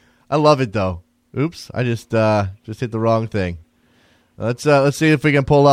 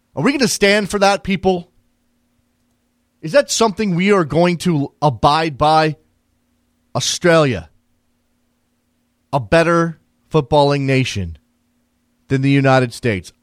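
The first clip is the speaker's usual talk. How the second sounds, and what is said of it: Incensed, outraged-sounding voice. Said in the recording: “I am incensed, if you can't tell from my voice.”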